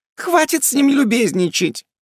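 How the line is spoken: Squeaked. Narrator (Russian): пискнула женщина

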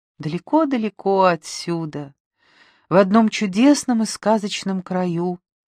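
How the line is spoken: Sad mother's voice. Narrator (Russian): говорила мамочка грустно

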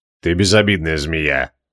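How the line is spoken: Gloomy mutter. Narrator (Russian): мрачно буркнул Креол

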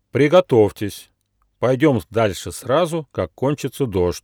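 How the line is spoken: Stern elephant. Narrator (Russian): строго сказал слон Лонг

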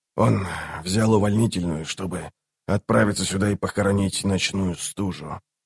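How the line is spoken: Added quietly. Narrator (Russian): тихо добавил он

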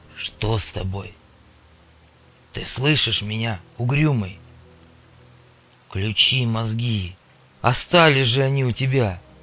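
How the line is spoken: Soft, soothing. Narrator (Russian): Мун говорил тихо, словно убаюкивал ребенка или уговаривал сумасшедшего

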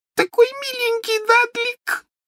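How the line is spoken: Sobbing. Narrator (Russian): всхлипывала она

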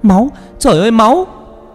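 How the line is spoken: Scream on waking. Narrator (Vietnamese): Vừa tỉnh dậy thì con Vân Anh hét lên

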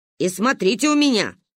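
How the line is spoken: Menacing growl. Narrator (Russian): рыкнула грозно

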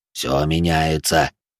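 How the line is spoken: Gruff mutter. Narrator (Russian): буркнул вождь детей угла

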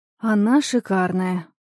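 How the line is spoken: Sighing. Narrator (Russian): вздохнула я

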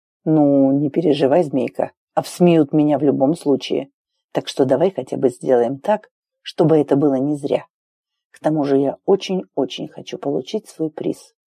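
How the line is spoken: Very quiet addition. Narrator (Russian): добавил совсем тихо

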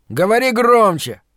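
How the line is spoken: Irritated shout. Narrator (Russian): раздраженно крикнул он

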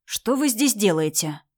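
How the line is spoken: Stern question. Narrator (Russian): спросил Женька строго

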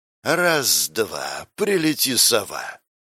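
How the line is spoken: Ambiguous melodic or growling voice. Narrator (Russian): Не то мелодичный женский, не то рычащий мужской голос раздался

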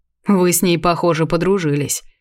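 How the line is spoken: Snorting chuckle. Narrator (Russian): хмыкнул ведьмак

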